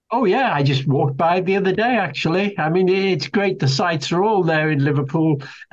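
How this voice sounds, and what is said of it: Slight Scouse (Liverpool) accent. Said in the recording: “has a slight accent ... I suppose you'd say it's a Scouse accent, but I come from Liverpool”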